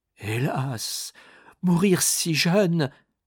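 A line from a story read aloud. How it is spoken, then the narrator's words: Anguished exclamation. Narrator (French): s'écria le malheureux Béville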